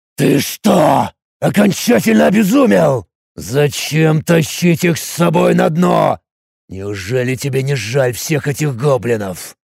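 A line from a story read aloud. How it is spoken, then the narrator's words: Furious astonished growling hiss. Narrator (Russian): Изумленно зло, с яростью в голосе, то ли прорычал, то ли прошипел Тарак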